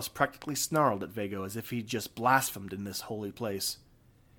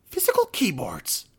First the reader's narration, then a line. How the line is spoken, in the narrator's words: Kronos exclaimed, laughing maniacally